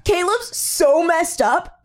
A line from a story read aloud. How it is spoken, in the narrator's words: Jonathan exclaimed gleefully